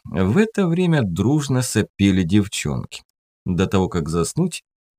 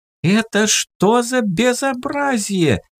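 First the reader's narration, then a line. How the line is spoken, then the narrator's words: Shouting. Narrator (Russian): кричала та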